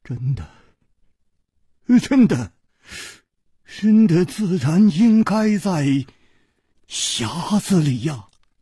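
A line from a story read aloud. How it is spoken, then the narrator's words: Trembling voice. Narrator (Chinese): 公子金半花的面色 又变了，他颤声说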